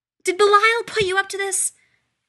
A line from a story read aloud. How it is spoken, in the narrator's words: Isabel Mortimer screeched